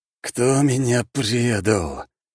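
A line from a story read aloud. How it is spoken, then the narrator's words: Weary, much-repeated. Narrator (Russian): устало повторил хранитель, наверное, уже в сотый раз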